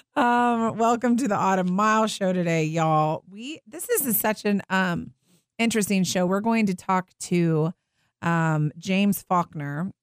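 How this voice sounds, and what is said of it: Weak, quieter voice from illness. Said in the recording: “I have been sick. My voice is not quite as loud as normal”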